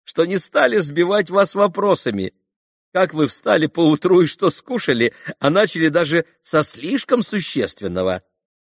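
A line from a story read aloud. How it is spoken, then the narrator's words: Laughing reply. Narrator (Russian): отозвался, все продолжая смеяться, Николай Парфенович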